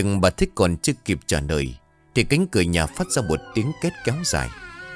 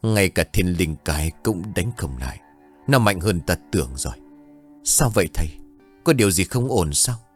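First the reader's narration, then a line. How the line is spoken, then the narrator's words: Harsh gritted voice. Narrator (Vietnamese): Ông ta gằn giọng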